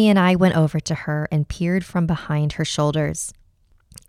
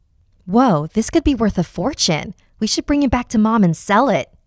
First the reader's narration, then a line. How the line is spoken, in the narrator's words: Jamie exclaimed